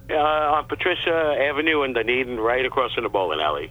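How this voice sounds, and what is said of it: New York accent. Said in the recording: “my New York accent must have gotten away”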